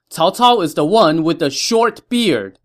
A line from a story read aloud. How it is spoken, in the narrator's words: told his men to shout